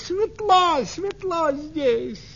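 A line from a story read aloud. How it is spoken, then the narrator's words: Shouting. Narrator (Russian): улитка закричала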